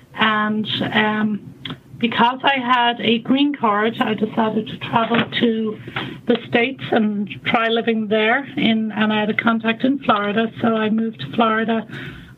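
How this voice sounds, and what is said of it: Irish accent. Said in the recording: “you can probably tell from my accent that I'm not from the U.S. I'm actually Irish”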